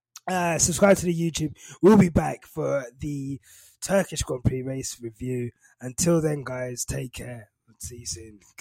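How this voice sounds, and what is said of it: Raspy voice, sick. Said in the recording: “probably hearing me coughing and sneezing all through it ... my raspy voice”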